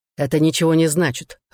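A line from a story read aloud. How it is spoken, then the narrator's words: Irritated reply. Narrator (Russian): раздраженно ответил Дуг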